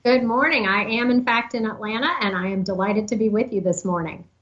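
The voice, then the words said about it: Distinctive Southern US accent. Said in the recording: “There's no mistaking that accent.”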